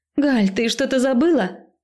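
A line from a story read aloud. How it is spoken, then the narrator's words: Shout. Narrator (Russian): крикнула я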